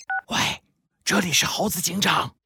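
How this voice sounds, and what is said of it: Quiet, hushed voice. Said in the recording (Chinese): “小声的接了起来”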